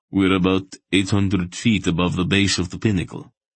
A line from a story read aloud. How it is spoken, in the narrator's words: Relg replied